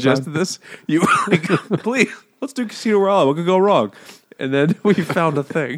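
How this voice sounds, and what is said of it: Usual voice. Nothing is said of it.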